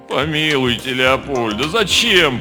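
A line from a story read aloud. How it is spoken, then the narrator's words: Moaning. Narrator (Russian): простонал Слава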